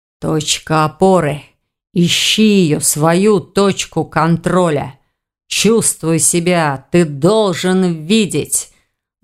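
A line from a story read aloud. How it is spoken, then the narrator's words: Dull low mutter. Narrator (Russian): Глухо пробормотал Эверетт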